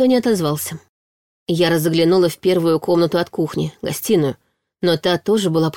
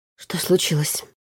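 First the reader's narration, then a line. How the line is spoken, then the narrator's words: Whispered question. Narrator (Russian): шепотом спросила она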